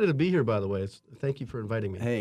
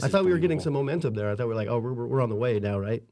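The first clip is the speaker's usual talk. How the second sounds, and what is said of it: Sarcastic delivery. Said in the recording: “That was sarcasm”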